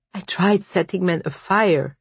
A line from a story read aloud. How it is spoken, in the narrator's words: said, with choked confession, the words spilling out